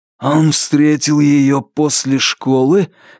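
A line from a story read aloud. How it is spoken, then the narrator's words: Hoarse question. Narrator (Russian): хрипло переспросил Лестер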